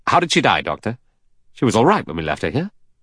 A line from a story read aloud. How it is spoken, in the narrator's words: Lombard said impatiently